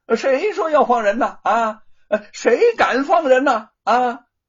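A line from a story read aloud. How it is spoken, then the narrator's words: Shouting. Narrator (Chinese): 大声的嚷嚷道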